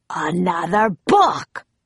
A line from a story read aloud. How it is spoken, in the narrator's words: roared Cap'n Bones